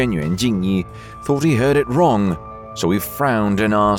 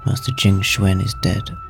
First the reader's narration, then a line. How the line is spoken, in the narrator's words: the steward ran to him in a hurry and whispered in his ear